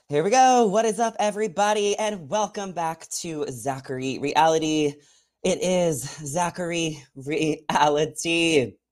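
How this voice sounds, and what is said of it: Slightly out of breath. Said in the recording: “just like a little out of breath for a second”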